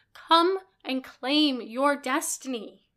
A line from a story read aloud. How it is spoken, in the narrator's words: she shouts, voice echoing in the arches of the hall